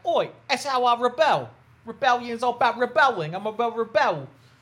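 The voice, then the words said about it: Imitated weird Cockney accent. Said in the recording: “she basically sounded like Michael Caine. She had, like, this weird Cockney accent.”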